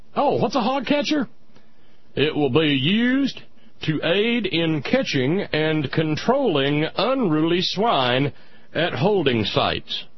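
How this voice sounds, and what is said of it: Put-on Texas accent. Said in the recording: “I'm working on a Texas accent here. It's not the same as a southern accent.”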